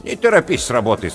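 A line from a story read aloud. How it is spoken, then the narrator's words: Old woman's stern rebuke. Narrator (Russian): строго осадила его старуха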